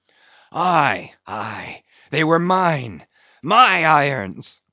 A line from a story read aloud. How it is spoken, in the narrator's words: cried Ahab exultingly